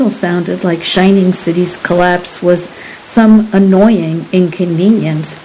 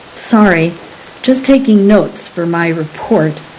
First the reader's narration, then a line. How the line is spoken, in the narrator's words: Adamantia said